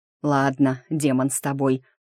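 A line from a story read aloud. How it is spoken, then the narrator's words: Through gritted teeth. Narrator (Russian): согласился я сквозь зубы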